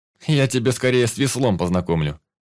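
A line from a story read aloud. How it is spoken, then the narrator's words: Snorting. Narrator (Russian): фыркнул я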